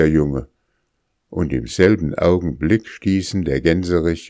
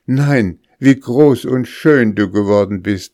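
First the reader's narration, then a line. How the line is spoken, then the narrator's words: Exclamation. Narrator (German): rief sie aus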